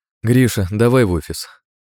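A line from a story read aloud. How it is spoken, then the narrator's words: Tired command. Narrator (Russian): дала команду Маргарита уставшим голосом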